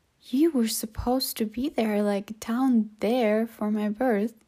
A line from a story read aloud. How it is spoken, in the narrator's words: Kara exclaimed